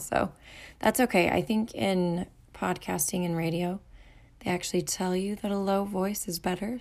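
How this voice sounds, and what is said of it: Hoarse, low voice. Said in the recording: “I'm a little hoarse. ... my voice is really low right now ... my voice won't give out completely”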